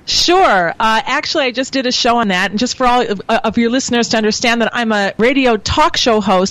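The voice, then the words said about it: American accent. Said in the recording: “wasn't expecting that American accent.”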